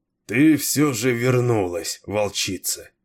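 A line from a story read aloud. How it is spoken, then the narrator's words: Weary. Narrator (Russian): устало промолвил Кейн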